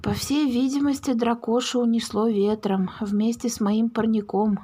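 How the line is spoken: Sigh. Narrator (Russian): вздохнул Чемурин

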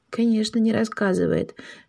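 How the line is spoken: Whispered. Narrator (Russian): шепнул Паша сестре

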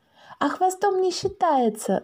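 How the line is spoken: Shouted reply. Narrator (Russian): закричала в ответ Маша

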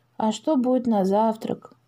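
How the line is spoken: Dejected voice. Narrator (Russian): упавшим голосом спросил Макс

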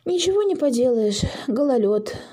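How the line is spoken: Sighing mother. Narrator (Russian): вздохнула мама

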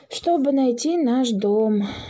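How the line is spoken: Sigh. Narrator (Russian): вздохнул Паша

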